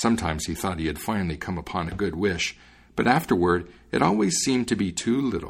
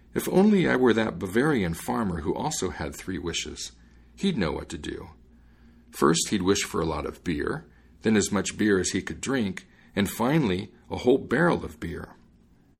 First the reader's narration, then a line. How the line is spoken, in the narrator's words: he sighed and said